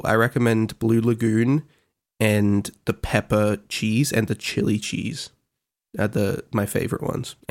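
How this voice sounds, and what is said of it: Rough, unwell-sounding voice. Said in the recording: “how terrible my voice sounds,”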